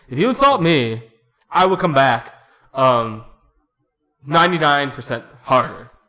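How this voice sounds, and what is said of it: Obama impersonating Trump. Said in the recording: “I don't do a good Trump impersonation. I was going to do Obama impersonating Trump.”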